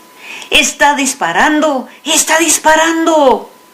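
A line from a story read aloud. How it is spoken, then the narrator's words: Shouting. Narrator (Spanish): gritó otra voz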